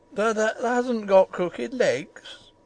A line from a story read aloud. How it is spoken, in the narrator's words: quavered Ben, more hoarsely yet